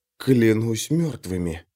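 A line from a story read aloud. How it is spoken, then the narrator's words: Whispered again. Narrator (Russian): вновь прошептал Лео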